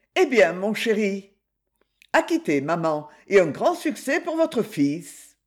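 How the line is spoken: Colonel exclaiming. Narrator (French): Le colonel s'exclama

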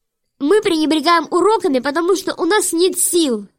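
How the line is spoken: Shouting. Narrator (Russian): закричала Вайлет

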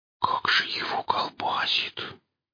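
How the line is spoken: Whisper. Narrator (Russian): прошептал Пистон

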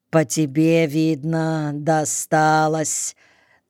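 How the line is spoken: Slow pensive. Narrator (Russian): медленно и как-то раздумчиво произнес лейтенант

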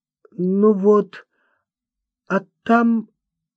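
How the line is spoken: Stammering. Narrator (Russian): запинаясь, проговорил Климан

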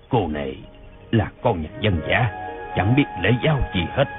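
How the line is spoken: Disdainful muttering. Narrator (Vietnamese): ông thấy nàng đầy vẻ quê kệch, lại không biết đến bái kiến mình, thì lẩm bẩm

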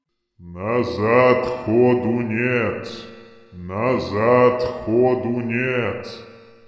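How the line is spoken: Deep heavy booming voice. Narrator (Russian): Прогудел глубокий, тяжелый голос, похожий на рокот закрывающихся дверей склепа

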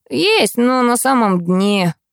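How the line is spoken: Groan. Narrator (Russian): простонал он

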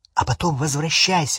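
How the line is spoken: Plain. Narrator (Russian): сказал Гарри

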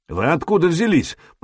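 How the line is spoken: Suspicious foreign-language grumble. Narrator (Russian): проворчал по-хузарски, с недоверием

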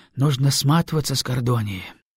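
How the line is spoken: Sighed. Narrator (Russian): вздохнул Каранима

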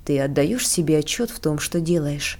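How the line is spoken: Plain. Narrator (Russian): спросил я ее

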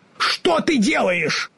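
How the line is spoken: Frightened shout. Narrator (Russian): в испуге закричал Страшило

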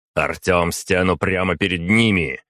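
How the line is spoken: Shouted. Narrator (Russian): крикнул я

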